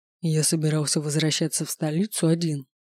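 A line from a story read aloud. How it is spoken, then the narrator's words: Whispered reminder. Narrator (Russian): напомнил мне шепотом Эндер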